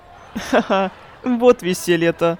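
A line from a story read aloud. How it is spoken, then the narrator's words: Shrill vulgar laughter. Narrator (Russian): Миура засмеялась пронзительным, вульгарным смехом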